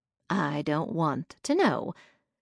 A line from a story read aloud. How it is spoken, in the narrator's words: Granny said